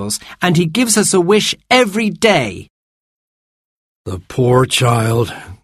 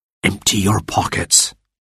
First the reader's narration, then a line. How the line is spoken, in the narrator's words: Martha whispered to Robert